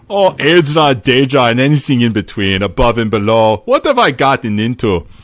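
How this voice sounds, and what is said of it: Nord character voice. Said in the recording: “Let me see if I can do this in a Nord voice.”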